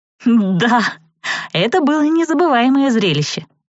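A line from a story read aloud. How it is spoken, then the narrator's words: Giggling again. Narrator (Russian): снова хихикнула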